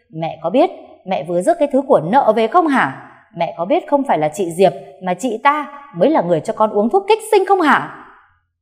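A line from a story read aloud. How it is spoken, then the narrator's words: Screaming. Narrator (Vietnamese): Cô Bích gào lên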